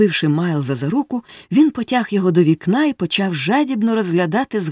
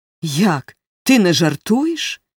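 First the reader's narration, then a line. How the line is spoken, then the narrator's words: Exclaimed. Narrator (Ukrainian): вигукнув він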